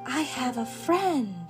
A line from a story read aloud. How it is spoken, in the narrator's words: whispered Sarah